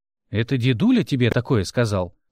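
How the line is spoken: Scoffing snort. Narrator (Russian): хмыкнул Мик

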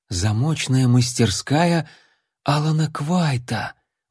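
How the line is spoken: Admiring youthful whisper. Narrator (Russian): восхищенно прошептал юнец

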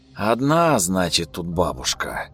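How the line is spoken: Breathy exhale. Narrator (Russian): выдохнул он

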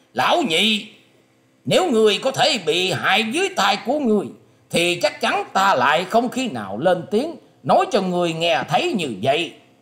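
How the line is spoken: Loud. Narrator (Vietnamese): Quý Trì Sâm to tiếng nói

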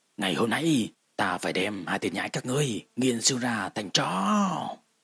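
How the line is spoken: Enraged screaming roar. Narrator (Vietnamese): nổi giận gào thét, rít gào lên

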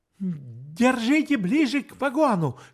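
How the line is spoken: Shout. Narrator (Russian): крикнул я Бергеру

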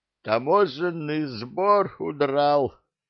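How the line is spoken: Cheerful groan. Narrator (Russian): простонал веселый Али

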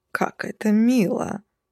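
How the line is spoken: Sudden breathy exhale, vampire. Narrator (Russian): неожиданно выдохнул в мои волосы стоящий сзади вампир

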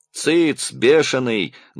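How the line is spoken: Old woman's menacing shout. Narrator (Russian): грозно кричала на него бабка Марья, мать Пал Палыча

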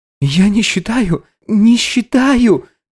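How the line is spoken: Squeaking. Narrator (Russian): пищал Габи

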